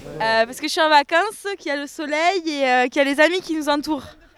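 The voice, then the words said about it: Slight regional French accent. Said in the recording (French): “on entend un petit accent”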